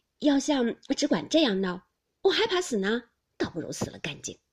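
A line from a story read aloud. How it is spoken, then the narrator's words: Laughing. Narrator (Chinese): 宝玉笑道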